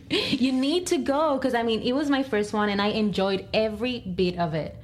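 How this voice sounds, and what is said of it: Noticeable accent. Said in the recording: “my accent is kicking”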